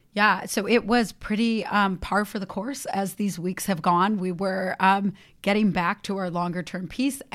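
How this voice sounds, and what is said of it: Hoarse voice. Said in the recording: “I have a little bit of laryngitis.”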